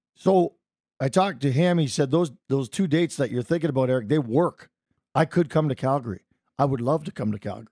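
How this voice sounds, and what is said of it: Strained, hoarse voice. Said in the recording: “apologize for my voice, ... I'm yelly man in the bar, as you may have noticed last night.”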